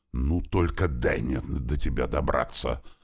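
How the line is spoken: Angry muttering girl. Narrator (Russian): зло пробормотала девушка

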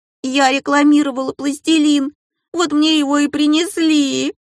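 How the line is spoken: Sobbing harder. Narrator (Russian): Еще сильнее зарыдала Полинка

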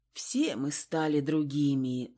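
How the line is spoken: Sighing, drawn-out. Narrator (Russian): вздохнула Анна и затянула протяжно

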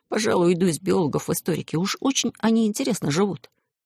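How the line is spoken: Envious whisper. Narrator (Russian): Пашка Гераскин, страдая от зависти, прошептал Алисе

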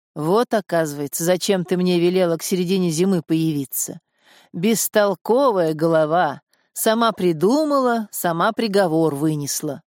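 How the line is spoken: Father's deep booming voice. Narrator (Russian): басил отец

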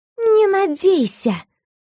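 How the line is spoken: Hissing. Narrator (Russian): прошипела в лицо Кайду

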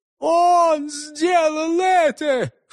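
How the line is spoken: Sobbing wounded man. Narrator (Russian): всхлипнул раненый

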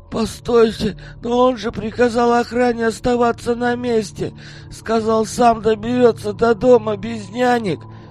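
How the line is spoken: Desperate moan. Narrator (Russian): Отчаянно простонал славянин

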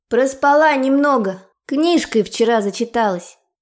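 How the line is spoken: Shout from another room. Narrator (Russian): крикнула я уже из ванной

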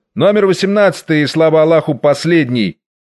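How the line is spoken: Curt, disgusted shout behind door. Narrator (Russian): невидимый за нею, крикнул отрывистый, брезгливо кислым голосом

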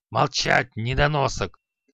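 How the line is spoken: Growled. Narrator (Russian): зарычал Халай

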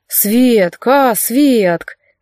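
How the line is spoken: Playful drawl. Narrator (Russian): шутливо протянул Марк

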